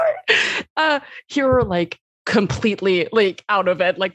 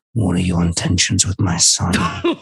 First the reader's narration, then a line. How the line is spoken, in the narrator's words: he says in a very low growl